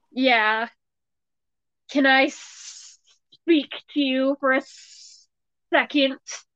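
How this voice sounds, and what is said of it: Hissing snake-like voice. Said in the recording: “She hissed like a literal snake. ... That's my imitation of a snake.”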